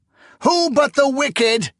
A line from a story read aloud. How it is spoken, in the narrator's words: he cried